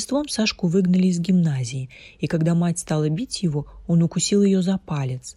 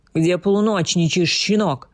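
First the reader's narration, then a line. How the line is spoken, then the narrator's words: Mother shouting angrily. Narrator (Russian): крикнула на него мать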